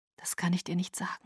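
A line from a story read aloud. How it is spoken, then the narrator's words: Whispered. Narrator (German): flüsterte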